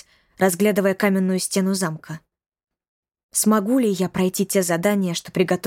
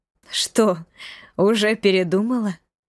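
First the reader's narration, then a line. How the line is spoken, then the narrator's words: Laughing. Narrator (Russian): засмеялась Марена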